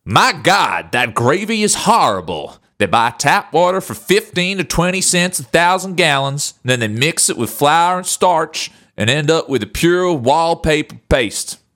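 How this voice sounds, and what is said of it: Put-on Southern American accent. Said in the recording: “Can I do it in a southern accent?”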